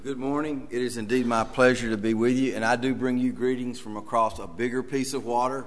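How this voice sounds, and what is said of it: Tennessee Southern American accent. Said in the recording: “I do apologize for the accent. This is how we sound in Tennessee.”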